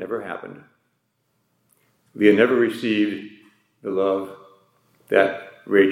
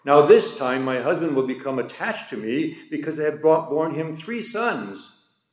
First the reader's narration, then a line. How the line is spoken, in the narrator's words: she hopefully cried out